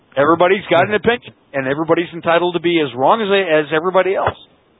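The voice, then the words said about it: Canadian accent. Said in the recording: “I'm getting shot on for my Canadian accent with my pronunciations of things”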